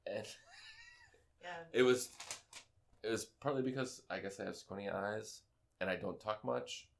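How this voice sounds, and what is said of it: Slow, laid-back stoner-like voice. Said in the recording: “I sound like a stoner. ... I sound like a total... pothead conspiracy theorist.”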